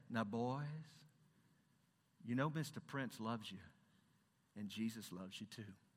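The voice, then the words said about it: Put-on genteel southern accent. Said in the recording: “that's a genteel southern accent. I have to work on it.”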